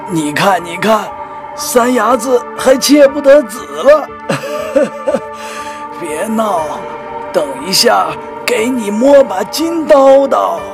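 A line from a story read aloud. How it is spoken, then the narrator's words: Laughing heartily. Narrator (Chinese): 老烟头大笑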